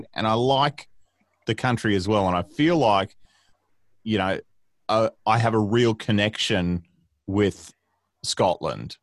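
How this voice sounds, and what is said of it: Australian accent. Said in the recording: “It's good to have an Australian accent on for a change... I can hear your accent, you can hear mine”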